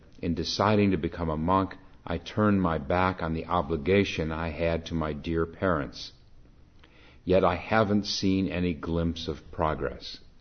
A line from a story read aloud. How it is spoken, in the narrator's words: the master heaved a deep sigh and said